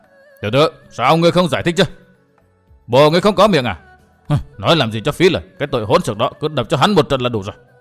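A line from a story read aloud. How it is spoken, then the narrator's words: Crowd scolding harshly. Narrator (Vietnamese): Bọn người vây quanh luôn miệng quát nạt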